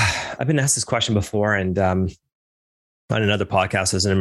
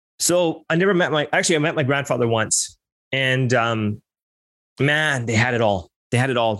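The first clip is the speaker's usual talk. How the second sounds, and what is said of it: Emotional speaking. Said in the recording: “As I get emotional here.”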